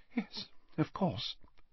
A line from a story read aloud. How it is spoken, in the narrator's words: said Slughorn quietly